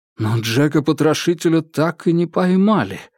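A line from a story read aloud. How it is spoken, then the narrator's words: Exclaiming. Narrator (Russian): воскликнул Джеймс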